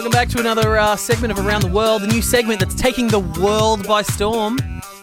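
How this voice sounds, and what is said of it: Unidentifiable put-on accent. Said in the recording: “I don't know what that accent was.”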